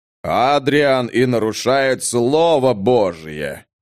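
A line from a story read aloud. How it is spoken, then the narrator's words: Deep bass voice. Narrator (Russian): пробасил Бенедикт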